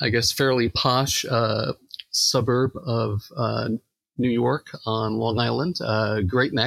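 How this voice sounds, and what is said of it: Usual voice. Nothing is said of it.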